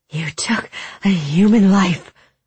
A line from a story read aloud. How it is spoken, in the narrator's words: Ula gasped